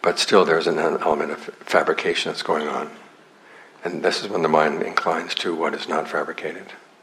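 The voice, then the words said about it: Strained, hoarse, fading voice. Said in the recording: “I'm losing my voice”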